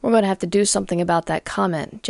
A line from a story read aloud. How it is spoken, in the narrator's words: Jessie muttered to herself